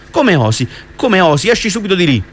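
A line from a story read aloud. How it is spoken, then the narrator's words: Exclaimed. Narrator (Italian): esclamò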